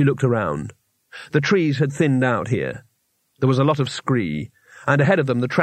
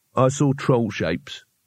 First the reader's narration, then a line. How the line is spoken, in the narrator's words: he said flatly